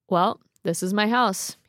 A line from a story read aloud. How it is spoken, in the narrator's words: he said flatly